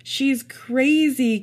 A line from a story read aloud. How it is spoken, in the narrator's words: Kevin yelled